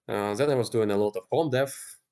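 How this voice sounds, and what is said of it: Non-native English accent. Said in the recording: “my English sucks ... if you think it's hard to understand me now ... my accent”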